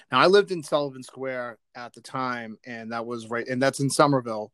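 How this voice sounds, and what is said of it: Boston accent. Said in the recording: “in case anybody wanted to hear a Boston accent”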